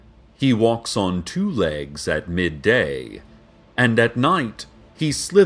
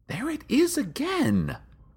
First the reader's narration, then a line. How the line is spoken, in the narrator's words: she whispered to a confused crowd